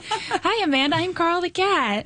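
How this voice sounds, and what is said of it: Slightly higher cartoon cat voice. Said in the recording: “your normal voice sounds a little lower than Carl's voice ... my voice is kind of similar to my own”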